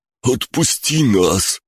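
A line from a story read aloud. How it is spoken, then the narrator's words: Sweaty man pleading. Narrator (Russian): взмолился потный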